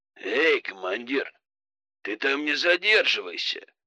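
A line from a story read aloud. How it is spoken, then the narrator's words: Snort. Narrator (Russian): хмыкнул Бат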